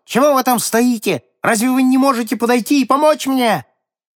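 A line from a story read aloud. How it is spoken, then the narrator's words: Shouted. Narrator (Russian): закричал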